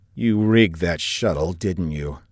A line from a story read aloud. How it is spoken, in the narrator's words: Saffinger asked coldly